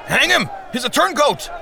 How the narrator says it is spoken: someone called out

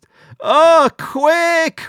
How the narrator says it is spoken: Rabbi Meir shouted

